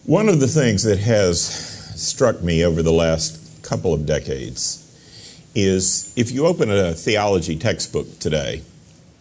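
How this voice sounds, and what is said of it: Loud booming preacher voice. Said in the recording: “you might want to turn it down a little bit. I have preacher voice.”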